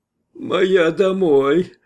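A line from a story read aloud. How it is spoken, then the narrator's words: Whining. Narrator (Russian): проскулил звероноид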